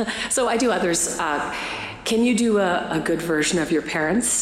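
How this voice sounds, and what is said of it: Usual voice. Nothing is said of it.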